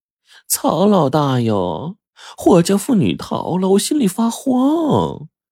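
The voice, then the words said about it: Coquettish, affected sugary voice. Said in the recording (Chinese): “嗲声嗲气的声音说”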